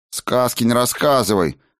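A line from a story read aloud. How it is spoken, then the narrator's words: Sharp scolding shout. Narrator (Russian): прикрикнула Аэсонна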